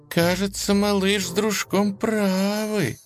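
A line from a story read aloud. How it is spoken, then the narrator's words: Said fearfully. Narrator (Russian): испуганно сказала Лиза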